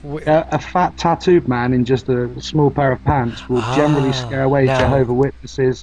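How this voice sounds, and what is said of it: English Dorset accent. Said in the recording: “I love your accent... It's from a different part of wherever you are... it's just shit, Dorset, really... I get accused of talking posh”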